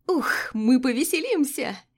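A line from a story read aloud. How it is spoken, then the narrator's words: Giggling. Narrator (Russian): хихикает она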